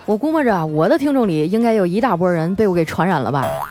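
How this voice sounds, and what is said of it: Strong Northeastern Chinese accent. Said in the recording (Chinese): “张嘴就是一口东北大碴子味儿 ... 你们听我还用东北话在这白话”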